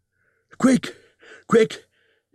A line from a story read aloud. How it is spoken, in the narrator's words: he gasped